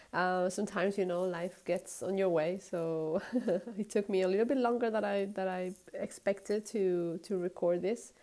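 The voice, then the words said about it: Sick, congested-sounding voice. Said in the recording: “I'm not feeling quite well today, as you can hear from my voice. I have a little cold”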